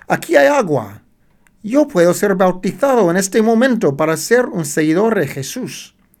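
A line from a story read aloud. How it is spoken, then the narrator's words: Man's exclamation. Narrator (Spanish): exclamó el hombre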